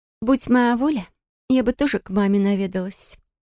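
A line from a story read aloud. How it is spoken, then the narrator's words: Sighing. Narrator (Russian): вздохнула Бристия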